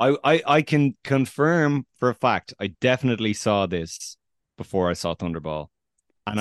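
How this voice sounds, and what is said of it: Usual voice. Nothing is said of it.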